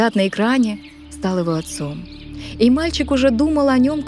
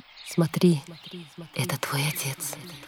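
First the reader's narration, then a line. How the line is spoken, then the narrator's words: Mother whispering. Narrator (Russian): мать шепнула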